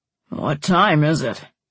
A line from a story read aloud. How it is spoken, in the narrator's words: Dad grumbled